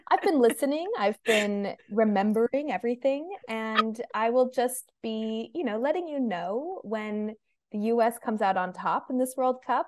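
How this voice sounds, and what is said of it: American accent. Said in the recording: “so my accent. I'm from the US”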